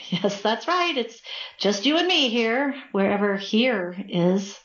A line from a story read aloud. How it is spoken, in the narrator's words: Nervously laughing said